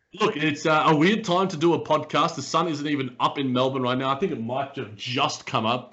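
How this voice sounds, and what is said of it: Slightly raspy voice. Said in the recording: “my voice sounds a little bit raspy”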